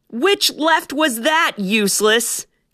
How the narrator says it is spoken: Kestrel bellowed in his ears

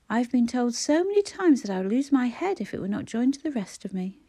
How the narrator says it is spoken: he laughed brightly

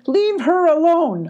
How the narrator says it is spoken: hollered Jake

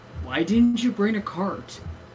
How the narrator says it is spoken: I grumbled to the Magus

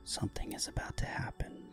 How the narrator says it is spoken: Shelley whispered

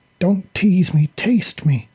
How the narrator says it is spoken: Vippy demanded, her fiery voice quavering with want and burning desire

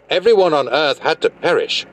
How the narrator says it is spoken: he yelled angrily at Enki

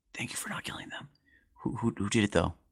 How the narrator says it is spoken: he'll whisper

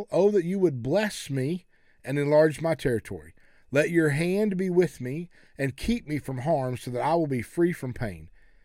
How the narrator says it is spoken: Jabez cried out to God of Israel

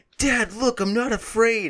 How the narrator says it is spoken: he has to scream out

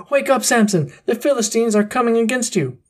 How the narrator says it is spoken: she called out to him

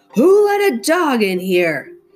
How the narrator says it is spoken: he kept on shouting

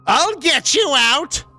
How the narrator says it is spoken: a loud female voice suddenly cried

